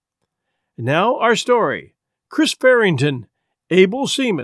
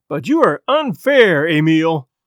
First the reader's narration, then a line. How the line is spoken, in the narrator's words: cried Chris Farrington, his sensitive face flushed and hurt